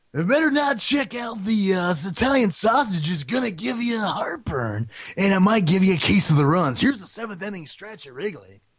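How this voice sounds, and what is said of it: Imitates another person's voice. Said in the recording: “Harry Carey here. That's my Harry Carey impression. It's probably not very good”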